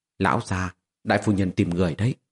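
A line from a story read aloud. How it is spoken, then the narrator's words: Quiet voice. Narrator (Vietnamese): Nhị Đoán nhỏ giọng nói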